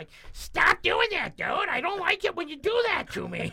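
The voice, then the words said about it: Imitates another person's voice. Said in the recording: “that's a fairly decent impersonation”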